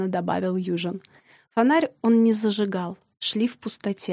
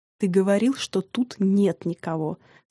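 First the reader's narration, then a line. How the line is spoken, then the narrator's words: Hissing through teeth. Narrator (Russian): Сквозь зубы зашипел Южин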